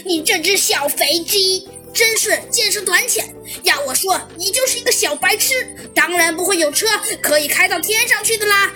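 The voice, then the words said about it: Very hoarse, scornful voice. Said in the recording (Chinese): “十分沙哑而不屑的声音”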